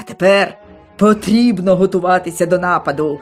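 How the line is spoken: Angry female shout. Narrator (Ukrainian): крикнула на нього усе ще розгнівана Мара

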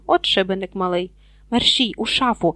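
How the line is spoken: Urgent hiss. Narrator (Ukrainian): Зашипів Гаррі

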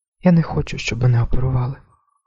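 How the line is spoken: Whisper. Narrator (Ukrainian): прошепотіла

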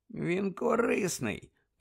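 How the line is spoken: Mutter. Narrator (Ukrainian): пробурмотів Сіріус

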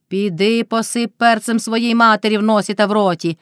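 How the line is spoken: Shrieking. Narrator (Ukrainian): верещала Мотря

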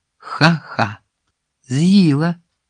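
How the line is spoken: Laughing. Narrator (Ukrainian): засміявся Сиз

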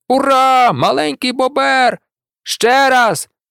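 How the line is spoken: Hawk shouting. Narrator (Ukrainian): закричав чорний яструб

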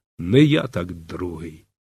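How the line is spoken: Defiant whisper through teeth. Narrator (Ukrainian): Він зціплював зуби і зухвало шепотів

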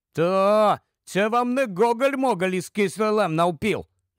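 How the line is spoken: Grumbled. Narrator (Ukrainian): буркнув

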